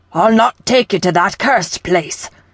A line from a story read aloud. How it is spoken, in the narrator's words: he spat